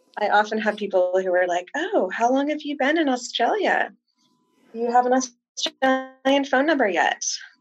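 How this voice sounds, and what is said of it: American Midwestern accent. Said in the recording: “you can tell by my accent that I'm American, and if you're really good at American accents, you can probably tell that I'm from the Midwest”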